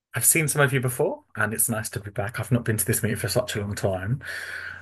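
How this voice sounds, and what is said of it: Thick British accent. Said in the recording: “from the UK ... sometimes my accent becomes a little thick, apparently ... everyone else tells me I've got an accent”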